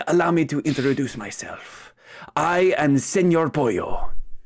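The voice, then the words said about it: Put-on accent, character voice. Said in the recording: “That accent.”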